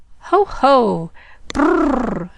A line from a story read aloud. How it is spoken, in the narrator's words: spluttered the big man, coloring like a schoolboy and throwing back his head with a hearty laugh